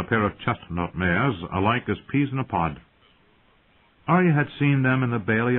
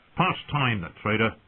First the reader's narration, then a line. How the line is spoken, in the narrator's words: the man spat